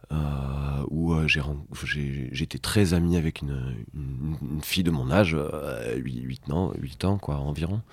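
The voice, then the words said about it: Singsong southern French accent. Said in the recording (French): “mon accent, il vient du Gers ... j'adorais son, son accent qui chantait. Et en fait, depuis, je l'ai plus ou moins un peu gardé ... cet accent”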